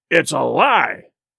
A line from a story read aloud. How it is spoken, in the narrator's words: roared the captain